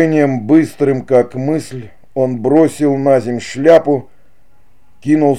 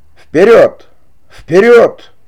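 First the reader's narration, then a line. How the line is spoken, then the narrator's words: Hunter shouting. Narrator (Russian): кричал охотник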